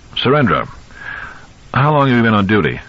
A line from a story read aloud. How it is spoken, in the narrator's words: Lewis asked, when the laughter died